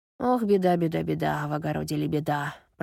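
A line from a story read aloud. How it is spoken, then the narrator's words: Muttered. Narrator (Russian): пробормотала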